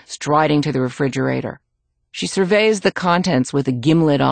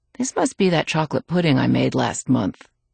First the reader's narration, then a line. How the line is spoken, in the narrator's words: murmuring